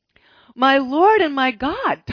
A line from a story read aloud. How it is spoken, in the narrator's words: Thomas exclaimed